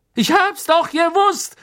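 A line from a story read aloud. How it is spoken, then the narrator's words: Gloating call. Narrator (German): rief Stan schadenfroh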